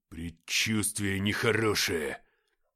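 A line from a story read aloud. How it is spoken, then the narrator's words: Hissing. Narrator (Russian): прошипел лейтенант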